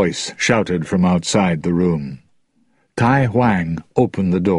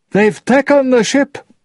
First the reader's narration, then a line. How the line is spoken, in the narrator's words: Tai Huang cried